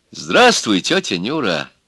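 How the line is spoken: Gentle, kind. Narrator (Russian): ласково сказал электрик

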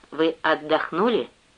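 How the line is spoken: Plain. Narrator (Russian): спросила она

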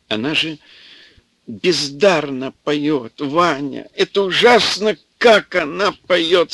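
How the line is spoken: Tearful old man. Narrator (Russian): сказал старичок сквозь слезы

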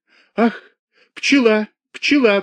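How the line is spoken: Shriek. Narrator (Russian): взвизгнула она

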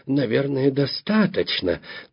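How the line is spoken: Timid interjection. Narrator (Russian): Я вмешивался робко

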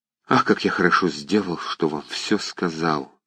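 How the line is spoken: Barely audible whisper. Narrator (Russian): едва могли шепнуть его губы

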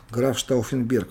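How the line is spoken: Plain. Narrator (Russian): ответил он

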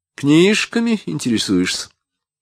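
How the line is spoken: Mocking question. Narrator (Russian): спросила Марина, и голос ее звучал явно насмешливо

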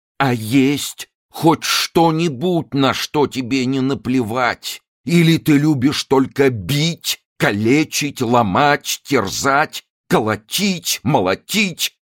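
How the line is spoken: Shouted. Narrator (Russian): крикнул он

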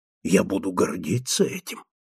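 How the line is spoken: Whispered. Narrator (Russian): прошептал он

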